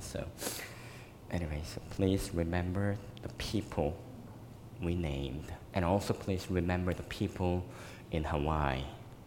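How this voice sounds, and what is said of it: Voice slightly weak and congested. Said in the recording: “you may hear me, little bit, my voice is a little bit down. Yeah, my allergy is killing me again.”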